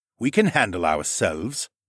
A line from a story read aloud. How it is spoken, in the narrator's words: the tall man snorted